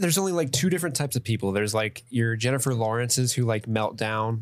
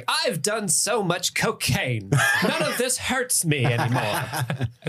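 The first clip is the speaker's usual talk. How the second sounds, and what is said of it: Impression of John Mulaney. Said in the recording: “John Mulaney who's like... That's pretty good impression.”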